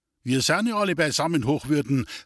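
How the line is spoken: Call out. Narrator (German): rief der Gemeindevorsteher

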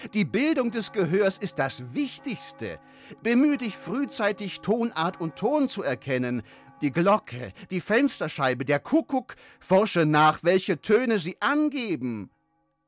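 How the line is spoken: Immediate call. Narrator (German): rief der sogleich

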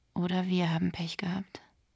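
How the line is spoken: Said quietly. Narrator (German): sagte Nota leise

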